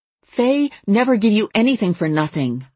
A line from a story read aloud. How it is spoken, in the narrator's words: I said urgently